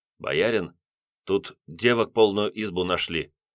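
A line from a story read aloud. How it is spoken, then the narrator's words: Quiet. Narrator (Russian): тихонько проговорил Ростих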